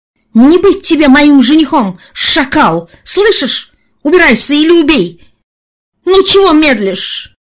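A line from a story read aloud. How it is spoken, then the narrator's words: Enraged yelling. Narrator (Russian): Тахир завопил, глаза налились кровью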